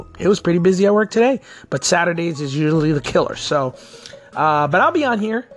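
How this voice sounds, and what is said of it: Worn-out, strained voice. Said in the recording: “my voice is shot. As you can tell, it's already going right now.”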